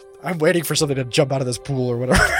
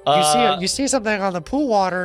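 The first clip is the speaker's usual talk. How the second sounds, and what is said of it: Imitates another person's voice. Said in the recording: “my John impersonation”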